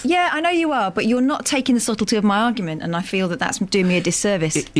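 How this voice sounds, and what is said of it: Strong northern English accent. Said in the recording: “such a strong northern accent”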